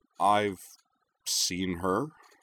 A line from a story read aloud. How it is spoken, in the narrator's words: Kaname said slowly, not sure where this was heading